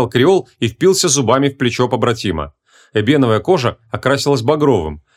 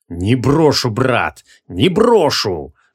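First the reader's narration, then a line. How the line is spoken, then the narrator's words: Angry croak. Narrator (Russian): злобно прокрипел Шамшутдин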